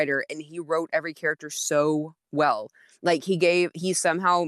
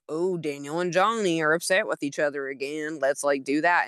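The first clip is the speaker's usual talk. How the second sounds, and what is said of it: Put-on Southern accent. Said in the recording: “I had a Southern accent for that”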